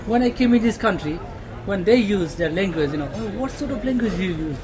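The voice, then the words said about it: Non-native English accent. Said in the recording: “I cannot speak English properly because my first language is not English ... our accent is something, you know, different accent”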